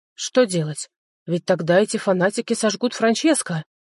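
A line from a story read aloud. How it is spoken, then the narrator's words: Exclaiming. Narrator (Russian): воскликнул Жозеф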